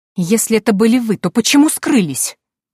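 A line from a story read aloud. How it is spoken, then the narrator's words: Angry exclamation. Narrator (Russian): Гневно воскликнула Патриция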